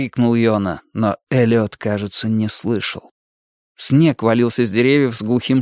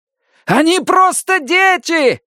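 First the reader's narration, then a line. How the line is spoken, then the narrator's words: Shouted again. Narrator (Russian): снова крикнул комиссар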